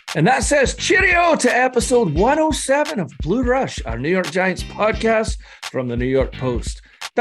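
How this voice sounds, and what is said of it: Scottish accent. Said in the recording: “your favorite Scotsman ... that Scottish accent”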